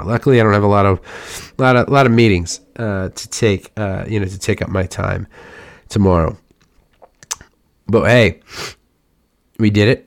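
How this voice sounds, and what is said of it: Rough, worn-out voice. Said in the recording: “I'm shocked my voice is still here, y'all. It's rough right now.”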